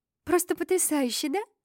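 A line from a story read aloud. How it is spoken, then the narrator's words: Excited rapid chatter. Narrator (Russian): взволнованно тараторила Мини по дороге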